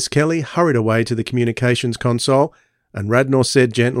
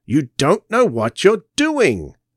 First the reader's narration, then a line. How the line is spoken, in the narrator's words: shouted Eldred